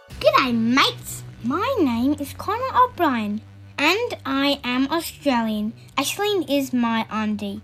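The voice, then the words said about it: Child with Australian accent. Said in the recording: “Aussie accents”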